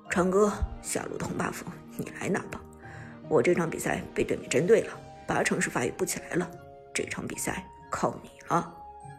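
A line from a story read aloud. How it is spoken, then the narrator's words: Low voice. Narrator (Chinese): 张哲伦则低声对苏哲道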